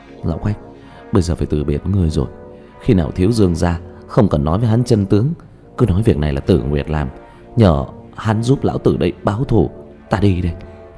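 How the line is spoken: Weak dying whisper. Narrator (Vietnamese): Tư Bảo ho khan một tiếng, vun ra một búng máu, suy yếu thì thào

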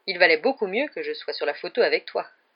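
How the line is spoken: Fatherly tone. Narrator (French): dit Lockhart d'un ton paternel

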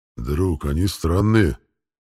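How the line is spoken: Animal growling. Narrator (Russian): прорычал питомец

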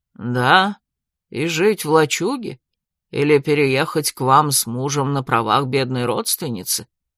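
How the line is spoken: Grumble. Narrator (Russian): проворчал Фрис

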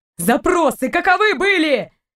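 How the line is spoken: Barked. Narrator (Russian): рявкнул Торн

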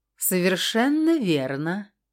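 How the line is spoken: Pleased purr. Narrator (Russian): довольно мурлыкнула Красная

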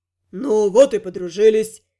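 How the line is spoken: Pleased snort, signalman. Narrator (Russian): довольно хмыкнул связист

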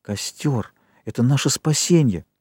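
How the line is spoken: Whisper. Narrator (Russian): Хрюша шептал

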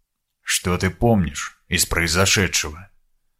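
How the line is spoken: Soft question. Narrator (Russian): тихонько спросил

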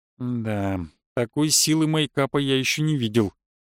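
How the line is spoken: Quiet. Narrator (Russian): тихо произнес я

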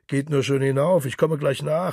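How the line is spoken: Distant call from darkness. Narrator (German): rief Gabriel aus dem Dunkel

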